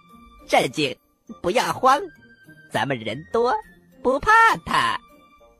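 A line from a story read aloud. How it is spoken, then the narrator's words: Quiet reminder. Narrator (Chinese): 土豆丁小声的提醒着大家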